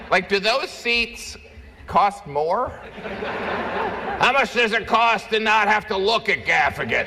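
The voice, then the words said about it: Imitates another person's voice. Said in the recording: “That's my Bloomberg impression.”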